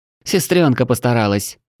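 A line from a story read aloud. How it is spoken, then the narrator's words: Spiteful. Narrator (Russian): злобно ответила Тушканчик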